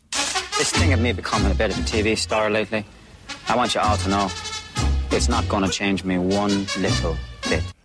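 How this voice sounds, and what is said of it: Poor Dublin accent, vaguely Northern Irish. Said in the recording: “trying to do a Dublin accent ... what sort of an abomination of an accent that was. It's vaguely Northern Irish”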